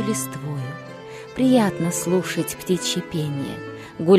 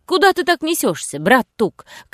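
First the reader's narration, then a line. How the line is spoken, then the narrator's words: Shouting. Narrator (Russian): крикнул Робин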